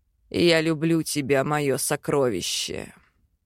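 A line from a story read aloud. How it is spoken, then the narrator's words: Quiet, tender. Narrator (Russian): Тихо произносит Хакан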